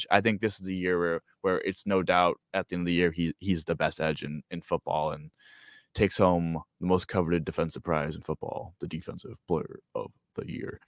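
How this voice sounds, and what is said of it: Sports announcer voice. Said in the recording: “I love the announcer voice there.”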